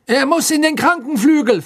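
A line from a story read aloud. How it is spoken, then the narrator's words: Loud announcement. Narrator (German): verkündete Fudge laut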